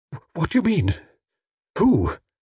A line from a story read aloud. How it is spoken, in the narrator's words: cried Mrs